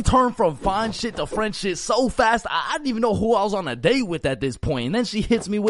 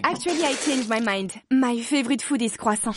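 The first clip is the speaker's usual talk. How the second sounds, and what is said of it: Put-on French accent. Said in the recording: “I can hear an accent starting to form in her speech ... where's this accent coming from? ... my French accent starts coming out”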